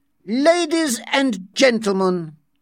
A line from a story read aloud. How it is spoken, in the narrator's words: speaking more loudly, he said